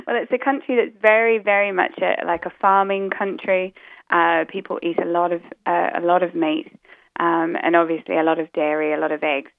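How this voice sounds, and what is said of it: Mixed New Zealand and British accent. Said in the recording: “my accent's a bit muddled up because originally I come from New Zealand ... So I heard the New Zealand in there.”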